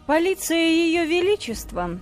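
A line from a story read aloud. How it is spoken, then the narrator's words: Sarcastic smirk. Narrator (Russian): язвительно усмехнулся Лестрейд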